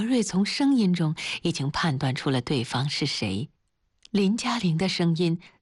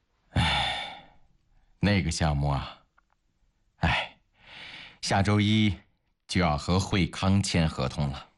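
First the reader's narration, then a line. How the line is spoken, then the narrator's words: Sighing. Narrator (Chinese): 崔国瑞心里觉得欠着林嘉玲的，他叹了口气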